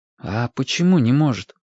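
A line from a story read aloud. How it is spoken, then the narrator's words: Quiet question. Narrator (Russian): тихо спросил Вашек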